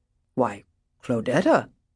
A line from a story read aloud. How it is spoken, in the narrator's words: he said, faintly alarmed